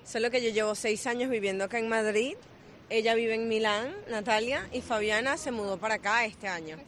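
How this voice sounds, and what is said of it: Venezuelan Spanish accent. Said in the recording (Spanish): “os noto acento ... somos de Venezuela”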